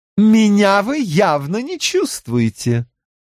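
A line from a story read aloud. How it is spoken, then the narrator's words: Announcing with laughter. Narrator (Russian): объявила она и посмеялась еще немного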